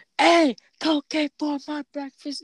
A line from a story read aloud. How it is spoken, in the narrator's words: yelling out